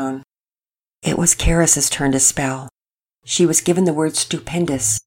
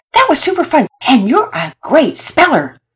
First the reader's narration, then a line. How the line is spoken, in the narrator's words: Todd shouted out